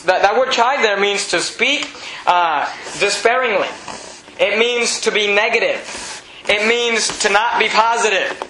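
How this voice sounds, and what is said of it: Slight non-American accent. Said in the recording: “I have a little bit of an accent because I wasn't born in the U.S.”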